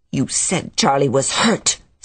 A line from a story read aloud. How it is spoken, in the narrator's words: said Carrie savagely